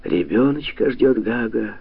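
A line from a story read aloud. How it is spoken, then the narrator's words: Sad. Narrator (Russian): печально сказала баба Маша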